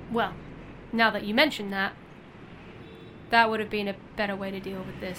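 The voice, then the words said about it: English accent. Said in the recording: “Why are you talking like an English person? ... Because, I'm English.”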